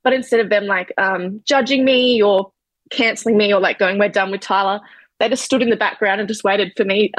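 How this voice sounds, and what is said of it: Emotional, voice close to tears. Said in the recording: “Sorry, I'm getting a bit emotional.”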